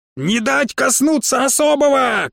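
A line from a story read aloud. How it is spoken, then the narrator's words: Shouting. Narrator (Russian): кричала Седая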